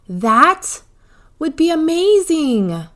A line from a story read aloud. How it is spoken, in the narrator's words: Carter exclaimed